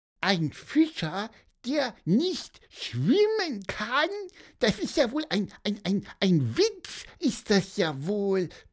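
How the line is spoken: Squeaked. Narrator (German): piepste Pieper

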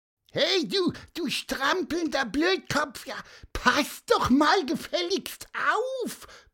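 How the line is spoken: Loud squeaky shout. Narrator (German): piepste Pieper dem Radfahrer laut hinterher

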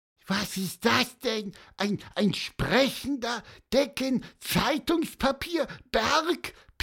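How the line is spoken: Excited squeak. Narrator (German): piepste Pieper aufgeregt

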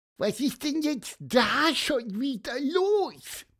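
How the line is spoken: Squeaking. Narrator (German): piepste Pieper

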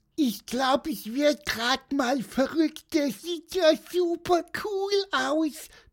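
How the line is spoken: Squeak. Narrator (German): piepste Pieper

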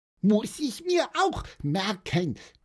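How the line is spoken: Squeaky voice. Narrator (German): piepste Pieper

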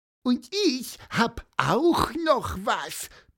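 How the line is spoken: Squeak. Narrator (German): piepste Pieper

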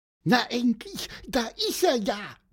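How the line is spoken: Squeaky voice. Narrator (German): piepste Pieper

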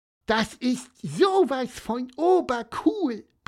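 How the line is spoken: Squeaked. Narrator (German): piepste

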